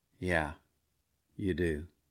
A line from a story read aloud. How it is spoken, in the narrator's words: Very gently, very kindly, and very quietly